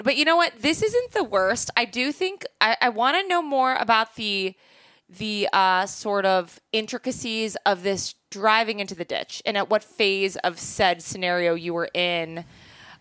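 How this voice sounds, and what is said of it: Speaks with a cute accent. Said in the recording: “just so cute with your accent”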